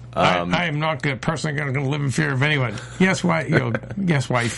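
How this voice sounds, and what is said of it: Imitates another person's voice. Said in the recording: “that was a good impression too”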